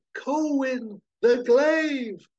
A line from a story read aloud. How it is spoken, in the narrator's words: And Lissa shouts across the chaos to Colwyn